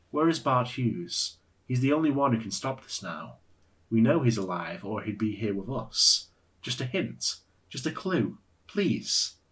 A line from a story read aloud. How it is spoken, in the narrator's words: Ulrich asked her gently